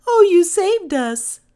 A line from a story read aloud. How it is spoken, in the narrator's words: they cried